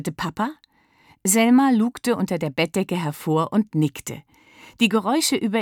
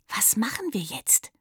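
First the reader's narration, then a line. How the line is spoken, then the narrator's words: Trembling whisper. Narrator (German): flüsterte sie und versuchte nicht mehr so stark zu zittern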